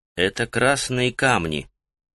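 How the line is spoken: Quiet answer. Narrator (Russian): негромко ответил

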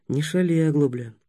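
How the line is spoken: Almost tender. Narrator (Russian): сказал Ростислав почти ласково

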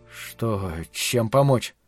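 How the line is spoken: Incoherent mumbling. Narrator (Russian): бессвязно бормотал я

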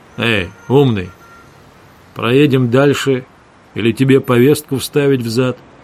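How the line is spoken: Deliberate, insulting tone. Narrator (Russian): Обдуманно, оскорбительным тоном сказал

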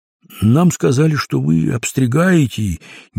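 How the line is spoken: Uncertain explanation. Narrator (Russian): неуверенно пояснил Крендель

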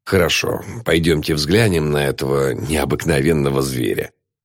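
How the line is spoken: Sighing. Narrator (Russian): Вздохнув, отец Гилман сказал

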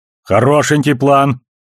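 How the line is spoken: Responded loudly. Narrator (Russian): громко отозвался Амос

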